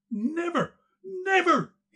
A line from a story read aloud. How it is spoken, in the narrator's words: he shrieked with a voice hoarse and choking